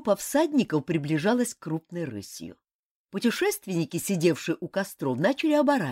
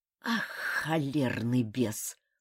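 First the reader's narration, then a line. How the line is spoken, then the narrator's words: Hissing. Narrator (Russian): прошипел он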